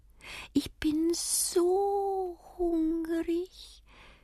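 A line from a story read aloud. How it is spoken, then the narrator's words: Squeaky peep. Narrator (German): piepst er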